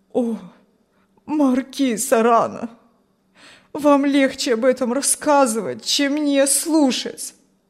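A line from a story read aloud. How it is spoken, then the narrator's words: Old man pleading. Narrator (Russian): взмолился старик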